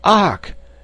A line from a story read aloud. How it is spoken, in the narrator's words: gasped the astonished Mr